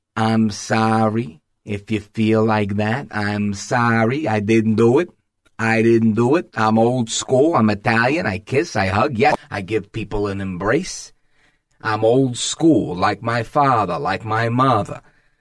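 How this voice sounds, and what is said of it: Imitates another person's voice. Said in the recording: “I don't have a great Andrew Cuomo impression”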